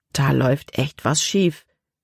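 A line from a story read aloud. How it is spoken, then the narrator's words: Plain. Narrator (German): sagte Caleb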